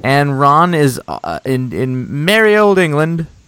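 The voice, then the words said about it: Very bad put-on accent. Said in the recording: “That was the worst accent I've ever done. ... Terrible.”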